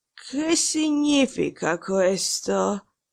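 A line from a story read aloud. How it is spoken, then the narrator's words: Hoarse voice. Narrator (Italian): lo sentì finalmente dire con voce rauca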